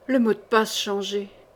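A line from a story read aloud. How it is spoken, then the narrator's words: Murmured. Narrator (French): murmura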